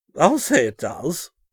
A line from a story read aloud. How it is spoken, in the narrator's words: Winston exclaimed